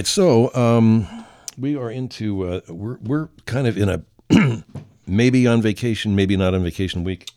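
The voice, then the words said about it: Hoarse, strained voice lacking low notes. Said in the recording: “You can hear I'm almost losing my voice, ... You see, I'm not really hitting those lows.”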